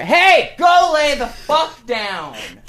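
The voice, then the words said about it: Yelling. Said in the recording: “sorry for yelling.”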